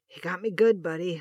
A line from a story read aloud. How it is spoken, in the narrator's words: Hutch rasped